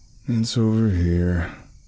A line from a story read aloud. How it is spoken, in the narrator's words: Charles said in a depressing voice